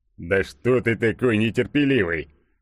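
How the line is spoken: Amused snort. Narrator (Russian): хмыкнул Игорек

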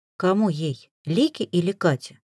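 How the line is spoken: Calm, lowered voice. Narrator (Russian): Спокойно осведомилась я, но тон голоса тоже понизила

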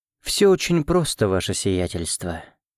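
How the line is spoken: Melodic voice. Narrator (Russian): мелодичным голосом проговорил тот

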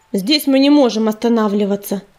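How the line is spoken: Irritated, curt. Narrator (Russian): раздраженно бросил Ежевика

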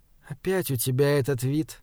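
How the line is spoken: Quiet. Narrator (Russian): тихо сказала

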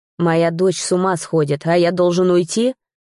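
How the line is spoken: Growl. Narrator (Russian): рыкнул

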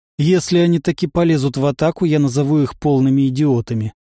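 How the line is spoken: Plain. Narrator (Russian): сказал Федор Степанович

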